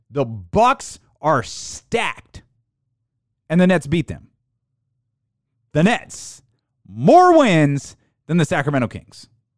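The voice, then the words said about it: Loud, yelling delivery. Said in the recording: “I'm yelling. I feel like I'm yelling at you... I just feel like I'm yelling”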